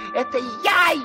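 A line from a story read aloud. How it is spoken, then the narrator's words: Frog's desperate full-voice shout. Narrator (Russian): лягушка не выдержала и, забыв всякую осторожность, закричала изо всей мочи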